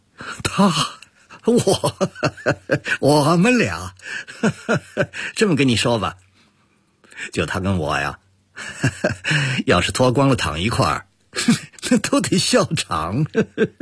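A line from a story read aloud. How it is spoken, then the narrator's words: Loud laughter. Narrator (Chinese): 陆泽熙大笑起来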